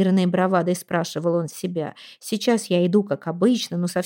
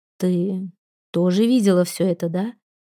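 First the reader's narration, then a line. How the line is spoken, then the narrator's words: Gentle question. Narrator (Russian): мягко спросил он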